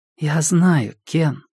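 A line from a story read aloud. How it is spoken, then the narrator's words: Soft reply. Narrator (Russian): мягко ответила она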